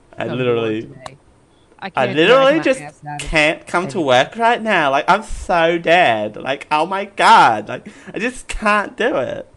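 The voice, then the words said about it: Put-on Valley Girl voice. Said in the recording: “have such a good valley girl ... Look at my accent. It's so bad.”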